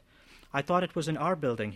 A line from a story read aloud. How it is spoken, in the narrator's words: he said